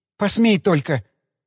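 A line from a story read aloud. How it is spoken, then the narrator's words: Spoken through tears. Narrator (Russian): сквозь слезы промолвила Людочка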